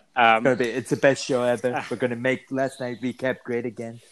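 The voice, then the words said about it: Imitates another person's voice. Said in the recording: “in your best Donald Trump impression”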